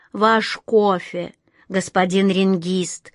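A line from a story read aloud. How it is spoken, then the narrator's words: Slow. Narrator (Russian): медленно проговорила она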